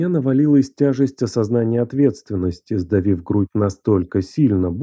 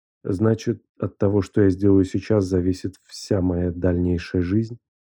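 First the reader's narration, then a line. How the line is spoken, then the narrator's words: Quiet question. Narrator (Russian): Спросил я тихо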